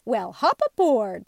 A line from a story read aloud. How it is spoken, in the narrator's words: said Tootle cheerfully